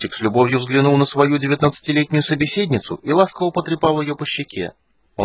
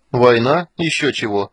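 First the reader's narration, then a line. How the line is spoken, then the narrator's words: Dismissive snort. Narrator (Russian): фыркнул он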